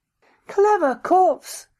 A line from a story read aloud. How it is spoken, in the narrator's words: the doctor cried